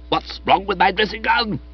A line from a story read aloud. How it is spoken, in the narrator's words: he demanded hotly